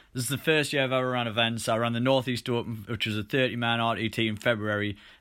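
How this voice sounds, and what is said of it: Newcastle English accent. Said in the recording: “Newcastle upon Tyne in the UK, which is where this weird accent is from”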